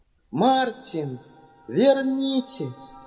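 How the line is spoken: Shout. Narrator (Russian): Анна крикнула

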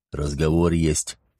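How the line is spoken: Quiet. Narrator (Russian): тихо сообщил он

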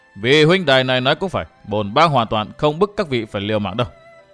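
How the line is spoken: Loud laugh then speech. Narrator (Vietnamese): Mặc Nho cười lớn rồi nói

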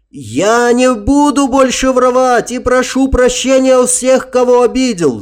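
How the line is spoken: Soldier's wail. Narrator (Russian): завопил солдат

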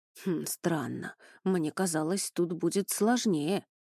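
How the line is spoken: Thoughtful whisper. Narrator (Russian): задумчиво прошептал Хо

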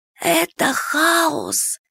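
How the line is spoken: Hoarse reply. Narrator (Russian): хрипло ответила подруга

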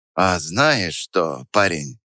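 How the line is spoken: Thoughtful drawl, old teacher. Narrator (Russian): задумчиво протянул старый учитель

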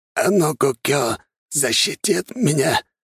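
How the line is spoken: Confused hoarse rasp. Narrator (Russian): Явно не особенно понимая, что происходит, прохрипел японец

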